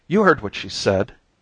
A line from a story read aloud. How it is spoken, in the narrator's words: cried Mrs